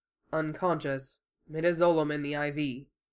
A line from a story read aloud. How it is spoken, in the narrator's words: Hiro said in a low voice